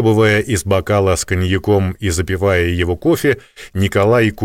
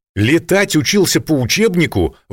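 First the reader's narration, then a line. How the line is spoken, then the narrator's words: Prince exclaiming. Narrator (Russian): воскликнул князь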